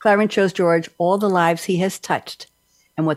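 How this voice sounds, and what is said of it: Usual voice. Nothing is said of it.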